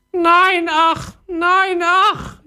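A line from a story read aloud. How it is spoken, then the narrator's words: Parrot wailing. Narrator (German): jammerte der Papagei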